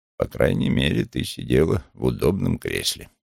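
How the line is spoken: Muttering. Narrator (Russian): пробормотал он

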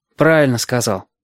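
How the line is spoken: Gruff mutter. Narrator (Russian): буркнул Галька

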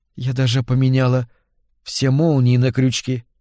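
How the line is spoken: Hoarse whisper. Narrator (Russian): хрипло прошептала Тенси

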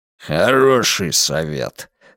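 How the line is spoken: Growl. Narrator (Russian): рыкнул он

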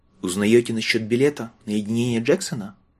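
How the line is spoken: Timid hopeless question. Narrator (Russian): робко спросил он, надеясь безо всякой надежды

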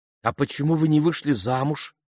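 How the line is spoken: Plain. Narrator (Russian): спросила Фиби

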